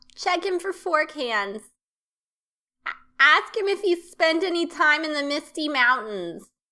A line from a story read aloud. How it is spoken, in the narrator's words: Burnie yells out